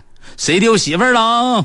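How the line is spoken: Shout from crowd. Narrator (Chinese): 人群中有个人喊

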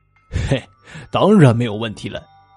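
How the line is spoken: Chuckling, dismissive. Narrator (Chinese): 大胆嘿嘿的笑着，他不屑一顾的说

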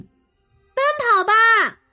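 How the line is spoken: Shouted command. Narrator (Chinese): 玛蒂娜喊出了那个神奇的命令

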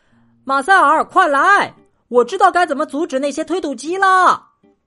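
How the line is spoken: Shouting. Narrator (Chinese): 在他门口大喊

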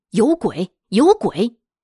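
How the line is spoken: Woman shouting. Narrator (Chinese): 那女的就喊

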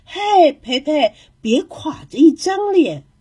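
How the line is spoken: Joking. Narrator (Chinese): 胖玛丽开玩笑的说

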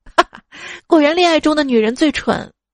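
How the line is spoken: Sudden snickering laugh. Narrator (Chinese): 表弟突然扑哧一笑说

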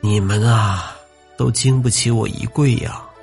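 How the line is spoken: Sighing. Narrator (Chinese): 黄师生叹道

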